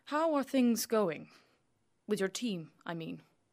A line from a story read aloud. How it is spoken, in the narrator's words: Jim asks